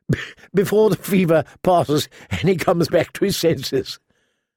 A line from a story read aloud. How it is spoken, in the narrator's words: suggested Harwin, chuckling